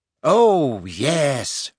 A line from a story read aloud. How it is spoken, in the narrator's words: she said happily